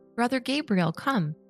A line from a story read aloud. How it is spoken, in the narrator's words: after having suffered a lot, I exclaimed